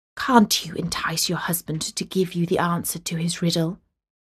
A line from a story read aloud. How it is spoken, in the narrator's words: the girl's father whispered into her ear